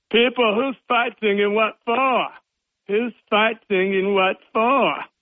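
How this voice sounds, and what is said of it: Imitates another person's voice. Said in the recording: “my Mick Jagger imitation”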